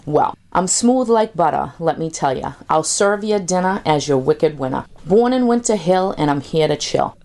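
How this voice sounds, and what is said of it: Boston accent, dropped R's. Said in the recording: “My accent's authentic, I'm not trying to sell ya... I drop my R's like Brady drops bombs.”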